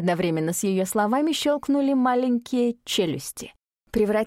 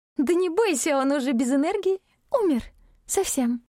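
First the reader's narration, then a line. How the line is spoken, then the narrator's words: Giggling. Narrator (Russian): хихикала Китара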